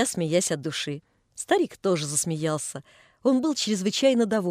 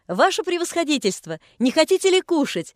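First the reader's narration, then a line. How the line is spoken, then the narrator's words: Lively shout. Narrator (Russian): закричала резвая Наташа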